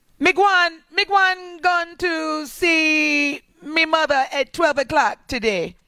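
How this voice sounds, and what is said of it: Put-on Guyanese West Indian accent. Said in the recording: “Let me see if I can do her accent. Well, I could do a Guyanese accent ... which is West Indian”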